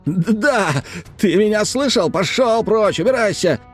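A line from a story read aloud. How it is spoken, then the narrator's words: Shouting. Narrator (Russian): кричал Реджес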